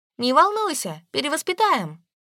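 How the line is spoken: Shout while running away. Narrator (Russian): убегая, крикнула я

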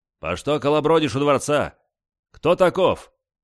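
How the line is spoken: Stern question. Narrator (Russian): Строго спросил

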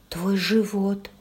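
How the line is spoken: Trembling voice. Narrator (Russian): произнесла дрожащим голосом

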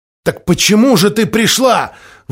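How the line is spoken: Shouted. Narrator (Russian): выкрикнул Генрих

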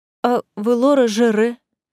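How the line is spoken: Weak tearful objection. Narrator (Russian): Сквозь слезы слабо возражает Делия

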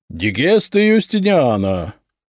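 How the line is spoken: Clerk reading in booming voice. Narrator (Russian): Зычным голосом зачитал дьяк

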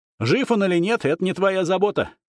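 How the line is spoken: Sharp reply. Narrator (Russian): резко ответил колдун

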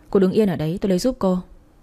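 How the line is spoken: Young man speaking. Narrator (Vietnamese): Thế điệu bộ run rẩy của tôi, thanh niên mới nói

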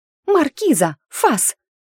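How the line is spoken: Shrill squeal. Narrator (Russian): взвизгнула опомнившаяся Доротея

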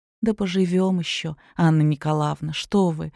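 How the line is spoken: Quiet reply. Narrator (Russian): тихо ответила Ирина

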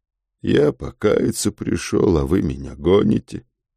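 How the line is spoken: Glum. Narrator (Russian): уныло сказал черт

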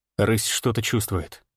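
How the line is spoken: Quiet speech. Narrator (Russian): тихо сказал я

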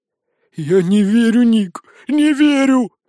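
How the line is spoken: Breathless boy's exclamation. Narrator (Russian): выдохнул мальчик-волшебница-фея

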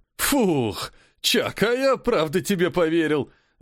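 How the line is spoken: Laughing, swallowing heavily. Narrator (Russian): рассмеялся Питбуль, сглатывая тяжелую слюну

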